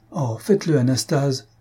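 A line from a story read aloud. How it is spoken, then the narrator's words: Exclaiming. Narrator (French): s'écria Faustine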